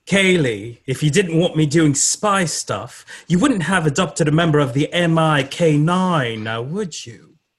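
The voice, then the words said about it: Stately English accent. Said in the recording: “speaks in a stately English accent. Think Stephen Fry.”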